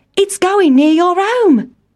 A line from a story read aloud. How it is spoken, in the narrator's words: cried Town Mouse